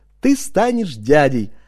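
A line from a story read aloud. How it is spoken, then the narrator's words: Joyful singing. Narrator (Russian): радостно напевала она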